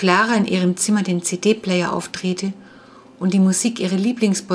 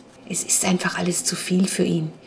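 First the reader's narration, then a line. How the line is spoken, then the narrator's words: Whisper to someone. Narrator (German): flüsterte Jonas Clara zu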